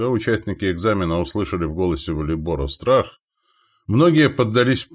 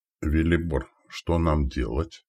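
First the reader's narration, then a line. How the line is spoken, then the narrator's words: Quiet question. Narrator (Russian): тихо спросил Новик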